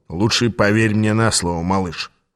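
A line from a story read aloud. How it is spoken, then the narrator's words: Snorted. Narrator (Russian): фыркнул Аас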